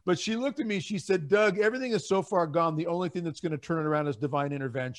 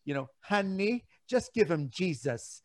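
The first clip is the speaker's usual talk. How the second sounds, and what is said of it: Imitates another person's accent. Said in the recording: “I'm not going to do it with her accent because I'm not as good as Raymond is ... but that's pretty good.”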